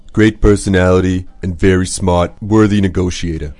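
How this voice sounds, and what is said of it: Imitates another person's voice. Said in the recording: “That's your impression of ... 模仿特朗普的口音啊”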